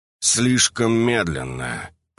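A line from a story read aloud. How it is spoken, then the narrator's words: Hissed through teeth. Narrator (Russian): процедил двойник сквозь зубы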